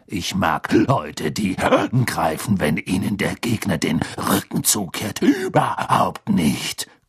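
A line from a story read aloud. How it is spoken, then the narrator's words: Growling. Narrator (German): knurrte Moody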